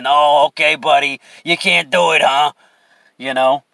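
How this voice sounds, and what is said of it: Put-on New York accent. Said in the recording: “He was a New York guy, fucking New York accent.”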